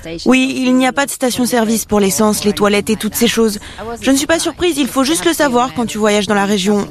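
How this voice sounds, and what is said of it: Slight foreign accent in French. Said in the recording (French): “Ils ont un petit accent.”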